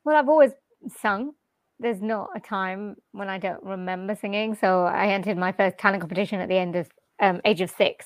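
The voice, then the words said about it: British accent. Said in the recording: “I love your voice, by the way. I love anybody that has that type of accent that's from the UK and around the surrounding areas”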